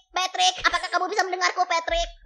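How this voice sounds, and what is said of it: SpongeBob cartoon character voice. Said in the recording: “Indonesian SpongeBob.”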